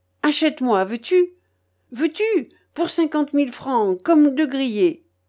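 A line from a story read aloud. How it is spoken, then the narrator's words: Sobbing cry. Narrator (French): criait-elle d'une voix entrecoupée de sanglots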